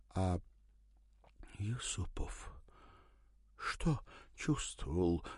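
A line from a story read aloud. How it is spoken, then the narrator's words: Breathed out. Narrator (Russian): выдохнула она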